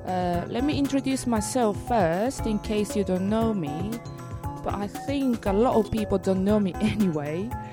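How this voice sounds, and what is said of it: Japanese-accented English. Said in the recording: “Hope you understand my Japanese and English accent.”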